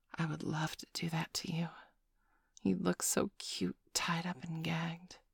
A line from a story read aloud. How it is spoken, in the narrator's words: whisper into your ear